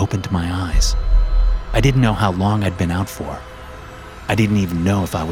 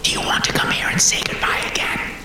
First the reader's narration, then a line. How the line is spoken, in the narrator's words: He whispered from behind the flames